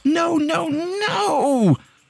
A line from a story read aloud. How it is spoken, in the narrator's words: the girl screamed